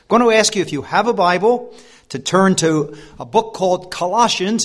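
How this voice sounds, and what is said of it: American accent. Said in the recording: “my accent ... I come from that faraway country called the USA ... I hope that my accent doesn't prove a barrier to your understanding”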